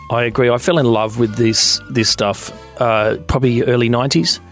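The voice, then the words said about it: Husky voice from a cold. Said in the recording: “you've got a bit of a cold ... I was out mulching and inhaled too much of the wrong stuff, so I've got my sexy voice on today”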